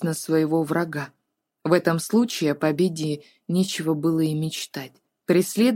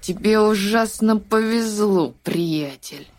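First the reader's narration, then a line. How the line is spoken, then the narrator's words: Boy speaking through gritted teeth. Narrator (Russian): процедив сквозь зубы, отметил мальчик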